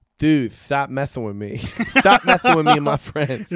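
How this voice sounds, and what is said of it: Imitates another person's voice. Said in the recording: “It's actually a pretty good impression.”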